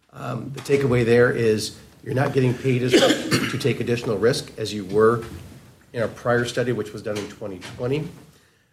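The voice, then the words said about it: Hoarse voice from a cold. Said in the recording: “I apologize for my voice. I'm getting over a cold.”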